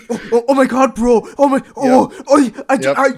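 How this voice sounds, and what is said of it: Imitation of rowdy teenage kids. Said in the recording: “my best like imitation of like a bunch of like white kids in public”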